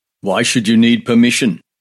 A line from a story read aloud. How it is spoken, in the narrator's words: asked roughly